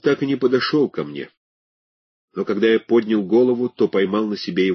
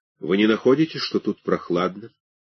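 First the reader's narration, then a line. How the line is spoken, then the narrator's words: Flat expressionless voice. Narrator (Russian): Каким-то безинтенционным голосом он сказал мне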